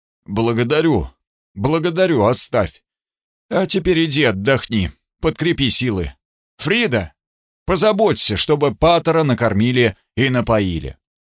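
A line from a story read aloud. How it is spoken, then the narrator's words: Suddenly hoarse voice. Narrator (Russian): Сказал сразу охрипшим голосом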